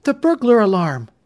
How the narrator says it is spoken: Sandy gasped

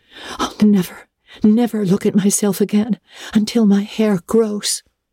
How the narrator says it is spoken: she exclaimed passionately

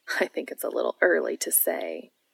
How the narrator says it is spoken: Cass says with a laugh

